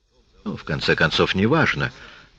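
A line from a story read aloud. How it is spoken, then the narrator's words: Muttered. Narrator (Russian): пробормотал Тат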